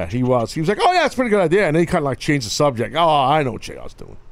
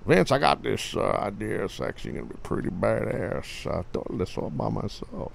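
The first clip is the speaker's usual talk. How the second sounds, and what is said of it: Generic Southern man voice. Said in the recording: “Was that your JR impression? ... That was more just generic Southern guy. ... I'm not good at impersonations.”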